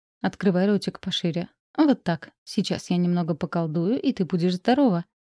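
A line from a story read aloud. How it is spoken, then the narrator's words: Soft. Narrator (Russian): Спутник Шаритона мягко сказал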